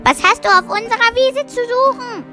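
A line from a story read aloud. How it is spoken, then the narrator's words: Calling out. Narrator (German): rief es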